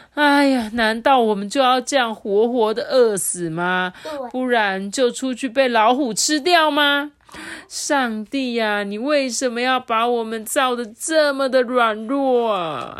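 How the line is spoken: Crying, sad. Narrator (Chinese): 他们就在哭嘛，伤心啊

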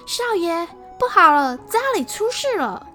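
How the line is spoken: Servants shouting urgently. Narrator (Chinese): 几个家丁急匆匆地跑来，大声喊着

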